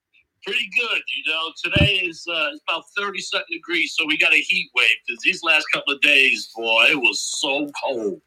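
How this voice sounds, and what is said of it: Downstate New York accent. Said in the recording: “got that downstate New York accent that I love”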